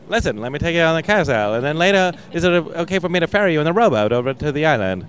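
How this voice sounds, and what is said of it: Old-fashioned transatlantic accent. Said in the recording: “they talk like this, like in an old, like a, yeah, the transatlantic accent.”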